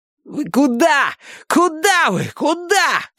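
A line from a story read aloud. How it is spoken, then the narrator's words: Repeated shouting. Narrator (Russian): кричал им Милос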